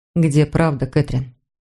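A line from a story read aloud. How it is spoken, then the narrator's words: Quiet, stinging. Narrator (Russian): произнес это тихо, но его слова все равно больно жалили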